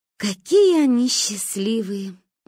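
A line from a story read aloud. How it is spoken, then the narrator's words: Sigh. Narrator (Russian): вздохнула Манька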